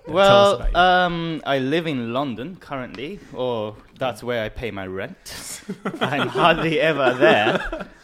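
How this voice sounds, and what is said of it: Japanese accent in English. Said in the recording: “I'm Japanese, as you might notice from my accent.”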